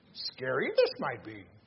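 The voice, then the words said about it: Yoda impression. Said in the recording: “trying to do my best Yoda voice”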